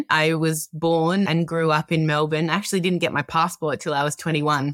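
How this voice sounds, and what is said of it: Australian accent. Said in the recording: “if you can't tell from the accent, I'm an Australian.”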